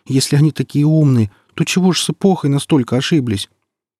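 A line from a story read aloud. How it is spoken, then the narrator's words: Trembling voice. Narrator (Russian): дрожащим голосом обратился к нему Сочинский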